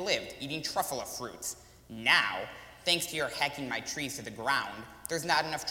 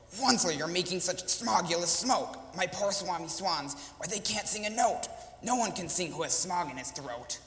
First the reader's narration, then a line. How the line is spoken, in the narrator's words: cried with a cruffless croak